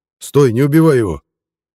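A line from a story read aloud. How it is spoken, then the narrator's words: Shouted. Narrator (Russian): крикнул Пинта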